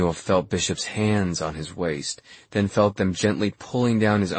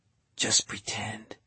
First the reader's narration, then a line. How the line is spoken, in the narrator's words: whispered into his ear